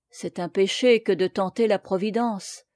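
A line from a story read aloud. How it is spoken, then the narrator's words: Low voice, smiling through tears. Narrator (French): reprit à voix basse Marthe, qui souriait et pleurait à la fois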